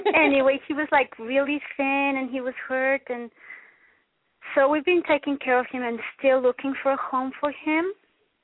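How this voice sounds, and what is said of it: Mexican accent. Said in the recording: “I'm coming from Mexico ... My accent is weird.”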